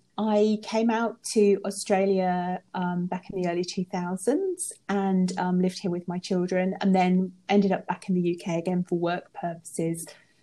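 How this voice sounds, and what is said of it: Non-Australian, likely British accent. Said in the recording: “as you can probably tell from the accent, I'm not from around here”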